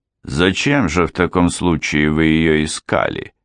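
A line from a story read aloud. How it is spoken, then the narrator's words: Fairly stern question. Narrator (Russian): Эрминтруда, приятно пораженная его речью, тем не менее нашла в себе силы спросить достаточно суровым тоном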